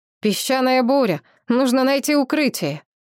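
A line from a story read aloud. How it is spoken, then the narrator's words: Shout. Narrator (Russian): Кто-то крикнул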